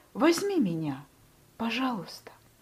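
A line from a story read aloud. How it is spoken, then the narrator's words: Quiet pleading request. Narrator (Russian): Павлик тихо попросил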